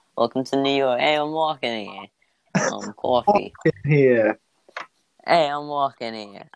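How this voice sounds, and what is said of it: Put-on New York accent. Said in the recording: “I can also do New York ... I had to do a New York accent”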